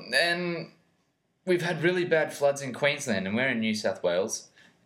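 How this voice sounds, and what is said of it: Heavy Australian accent. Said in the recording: “Australian accent. ... We've got that hefty accent going.”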